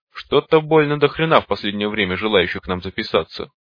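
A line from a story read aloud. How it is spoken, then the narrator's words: Short chuckle. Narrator (Russian): хохотнула из блямбы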